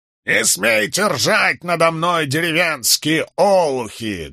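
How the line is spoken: Barked, mock-aristocratic accent. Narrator (Russian): гаркнул рыцарь, подражая произношению аристократов

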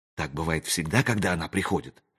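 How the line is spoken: Whispered question. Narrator (Russian): шепотом спросил он у Зеда

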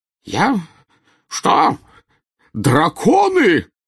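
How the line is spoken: Yelled, spluttering. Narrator (Russian): завопил, брызгая слюной, премьер-министр

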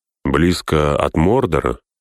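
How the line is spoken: Calm. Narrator (Russian): спокойно закончил Берегонт

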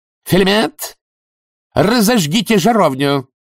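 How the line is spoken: Barked. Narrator (Russian): рявкнула герцогиня

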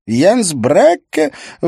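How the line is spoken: Exclaimed. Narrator (Russian): воскликнула Лиз

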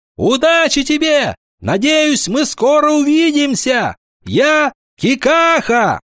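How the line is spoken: Smiling shout. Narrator (Russian): улыбнулся и крикнул

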